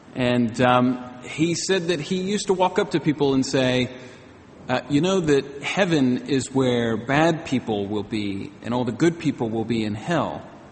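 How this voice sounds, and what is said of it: American accent. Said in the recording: “I do have an American accent”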